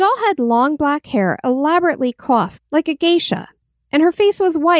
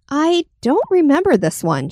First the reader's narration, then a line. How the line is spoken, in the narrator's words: she said